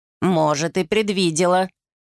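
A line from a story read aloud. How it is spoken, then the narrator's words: Scornful snort. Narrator (Russian): фыркнула бабушка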